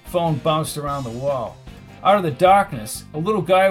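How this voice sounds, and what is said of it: Usual voice. Nothing is said of it.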